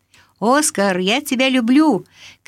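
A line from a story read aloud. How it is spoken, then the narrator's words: Shouted after someone. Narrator (Russian): крикнул Расмус ему вслед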